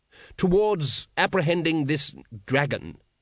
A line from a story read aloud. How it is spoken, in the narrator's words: said the patrician firmly